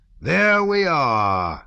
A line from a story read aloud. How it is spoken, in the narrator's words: Rostopchin shouted at Pierre louder than before, frowning suddenly